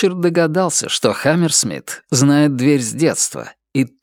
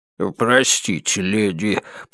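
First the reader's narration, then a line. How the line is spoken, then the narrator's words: Mumbling. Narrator (Russian): пробормотал он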